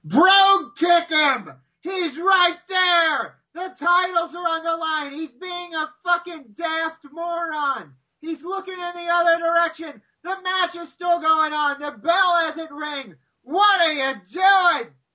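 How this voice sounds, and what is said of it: Screaming at the top of lungs. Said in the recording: “Screaming literally at the top of my lungs ... I was screaming at the top of my lungs”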